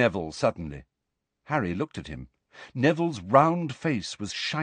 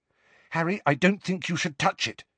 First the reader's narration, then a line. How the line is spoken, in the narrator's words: said Hermione sharply